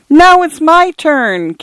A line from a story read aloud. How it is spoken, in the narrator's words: came the distant wail